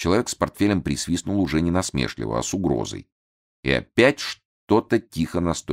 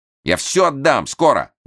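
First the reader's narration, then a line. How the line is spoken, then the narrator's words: Shouted out. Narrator (Russian): выкрикнул Лимбах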